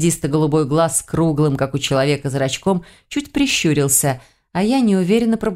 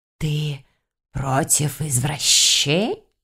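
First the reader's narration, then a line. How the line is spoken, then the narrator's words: Hissing in ear. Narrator (Russian): Зашипел мне на ухо этот ненормальный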